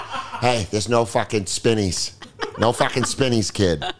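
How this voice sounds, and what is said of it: Put-on Massachusetts accent. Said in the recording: “he's from fucking Lowell. He's from fucking Massachusetts. ... that accent”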